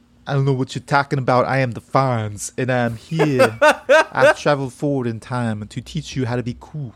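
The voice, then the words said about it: Impression of the Fonz character. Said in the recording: “Vinny Barbarino doing a Fonzie impersonation ... you sound a lot like Vinny Barbarino”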